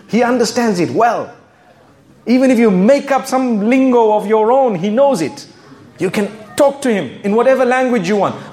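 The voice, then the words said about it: Zimbabwean-accented English. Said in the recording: “I come from Zimbabwe. You can hear my accent, right? I hope it's clear.”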